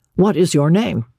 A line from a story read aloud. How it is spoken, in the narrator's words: he said